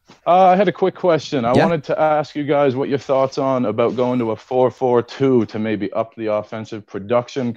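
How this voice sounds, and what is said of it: Slight northwestern English accent. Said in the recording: “I heard a little northwestern twang ... There's like a little twang”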